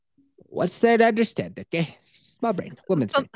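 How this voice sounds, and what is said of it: Speaks in a put-on accent. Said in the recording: “I'm having a hard time understanding this story with the accent.”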